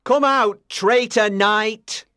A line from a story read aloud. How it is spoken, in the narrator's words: shouted Sir Mordred